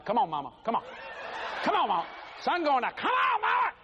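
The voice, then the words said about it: Raised, shouting voice. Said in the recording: “she gets mad when I raise my voice”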